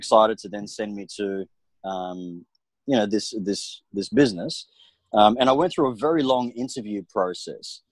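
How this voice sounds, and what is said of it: Solid Australian accent. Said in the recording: “I talk like I'm, I'm westernized ... a very solid Australian accent.”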